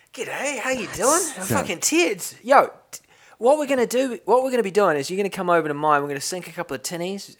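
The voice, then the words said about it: Put-on Australian accent. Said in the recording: “I can do a decent Australian accent”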